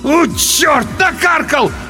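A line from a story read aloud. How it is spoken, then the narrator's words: Loud wail. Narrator (Russian): В голос взвыл тот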